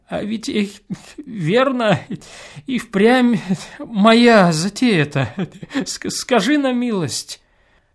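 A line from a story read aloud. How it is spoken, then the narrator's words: Sobbing, laughing-crying mutter. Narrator (Russian): странно всхлипнув, смеясь или плача, стал бормотать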